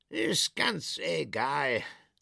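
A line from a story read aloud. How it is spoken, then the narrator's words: Salesman's sigh. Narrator (German): seufzte der Verkäufer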